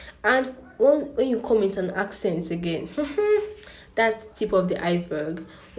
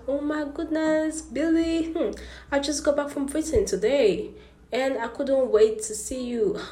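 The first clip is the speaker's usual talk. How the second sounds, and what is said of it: Put-on British accent. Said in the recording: “you just start speaking accent ... I don't think that's the British talk. They don't talk like that.”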